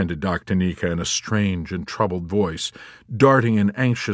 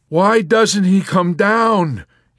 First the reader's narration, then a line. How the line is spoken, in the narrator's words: Yossarian exclaimed in despair